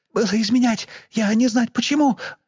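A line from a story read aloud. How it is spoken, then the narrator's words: Faltering babble. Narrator (Russian): пролепетала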